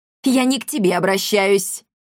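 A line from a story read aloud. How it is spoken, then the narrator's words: Sharp rebuke. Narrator (Russian): прикрикнула Амалия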